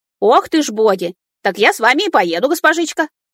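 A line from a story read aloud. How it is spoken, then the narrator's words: Barking shout. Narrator (Russian): рявкнула она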